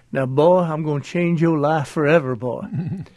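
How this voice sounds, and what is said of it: Imitated Southern accent. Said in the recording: “he had a great Southern accent”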